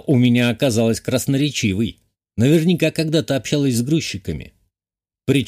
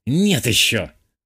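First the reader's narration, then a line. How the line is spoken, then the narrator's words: Angry declaration. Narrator (Russian): зло заявила сестра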